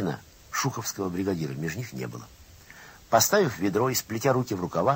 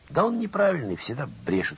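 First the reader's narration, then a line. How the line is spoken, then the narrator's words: Plain. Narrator (Russian): сказал кто-то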